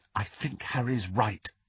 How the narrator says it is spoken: said Hermione quietly

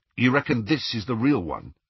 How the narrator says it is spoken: asked Ron

